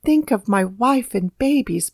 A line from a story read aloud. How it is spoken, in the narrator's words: pleaded Hunter